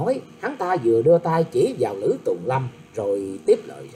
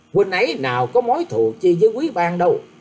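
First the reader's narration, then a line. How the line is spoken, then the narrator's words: Snapping young woman. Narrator (Vietnamese): Cô gái áo xanh nạt rằng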